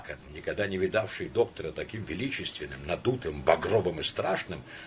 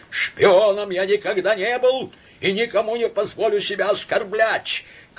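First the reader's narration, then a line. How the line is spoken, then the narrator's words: Quavering shout, stressed word. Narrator (Russian): крикнул он дребезжащим голосом, делая ударение на последнем слове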